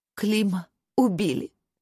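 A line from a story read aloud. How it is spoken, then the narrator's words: Sobbing. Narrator (Russian): всхлипывая, произнесла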